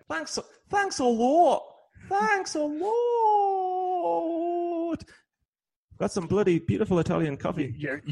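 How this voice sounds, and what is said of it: Exaggerated fake British accent. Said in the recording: “Your fake British accent is even more annoying than your real British accent.”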